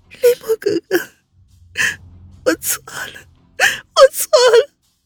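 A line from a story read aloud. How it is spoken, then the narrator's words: Wailing, sobbing, grief-stricken. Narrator (Chinese): 温之夏突然嚎啕大哭起来，抽噎着，悲凉道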